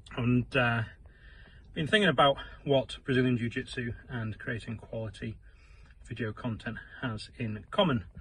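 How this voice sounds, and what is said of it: Out of breath. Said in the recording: “I am out of breath,”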